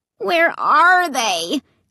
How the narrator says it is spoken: Clay asked, whining

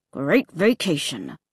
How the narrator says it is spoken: he said through clenched teeth

